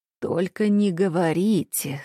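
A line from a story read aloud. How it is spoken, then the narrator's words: Anguished voice. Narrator (Russian): страдальческим голосом вопросил он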